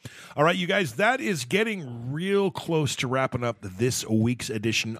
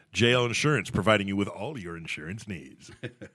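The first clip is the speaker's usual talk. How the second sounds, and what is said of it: Radio announcer advertising voice. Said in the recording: “That's my radio voice kicking in and pretending to do advertising.”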